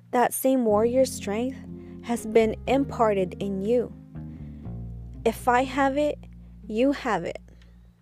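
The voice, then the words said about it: Voice breaking up with passion. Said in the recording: “my voice is breaking up. It is because I am saying this with passion”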